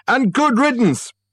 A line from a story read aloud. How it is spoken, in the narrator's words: shouted a voice from the inner office